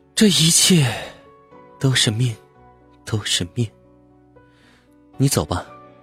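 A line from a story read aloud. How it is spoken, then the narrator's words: Sighing. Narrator (Chinese): 荣叹了口气说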